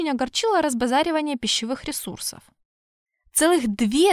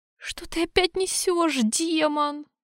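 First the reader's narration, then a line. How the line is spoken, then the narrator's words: Groaning. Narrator (Russian): застонала Аурелиэль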